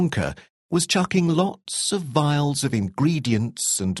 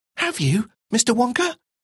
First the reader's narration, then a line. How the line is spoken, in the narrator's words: Charlie asked excitedly